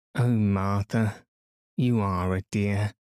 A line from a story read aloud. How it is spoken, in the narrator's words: sighed Anthea